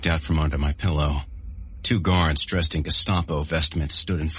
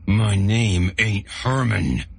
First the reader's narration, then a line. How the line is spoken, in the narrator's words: he growled